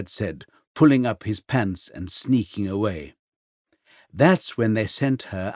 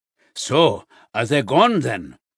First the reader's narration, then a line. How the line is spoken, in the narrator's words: her grandfather grunt from somewhere behind the shelves